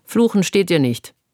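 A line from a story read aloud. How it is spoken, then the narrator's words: Dry. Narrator (German): sagte Loredana trocken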